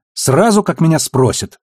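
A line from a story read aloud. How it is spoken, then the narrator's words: Snapping. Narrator (Russian): огрызнулась Наоми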